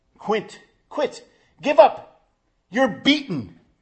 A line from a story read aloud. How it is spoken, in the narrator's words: they shout and plead